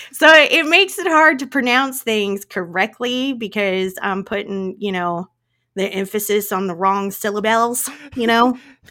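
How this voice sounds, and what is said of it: Noticeably strong regional accent. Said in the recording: “I thought that my accent wasn't that bad... apparently it's my accent's pretty bad. It's pretty bad.”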